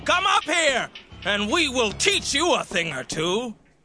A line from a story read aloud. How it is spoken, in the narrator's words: they yelled down to Jonathan and the soldier